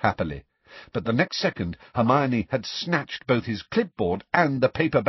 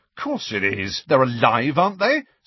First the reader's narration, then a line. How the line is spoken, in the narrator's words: said Fred angrily